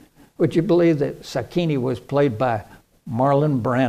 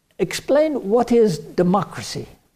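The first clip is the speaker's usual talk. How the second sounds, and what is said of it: Slight put-on Japanese accent. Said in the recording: “I was trying to say that like, you know, a little Japanese accent.”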